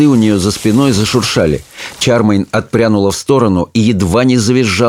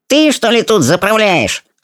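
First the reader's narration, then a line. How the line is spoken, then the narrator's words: Sharp squeaky voice. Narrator (Russian): спросил этот синенький коротышка резким писклявым голосом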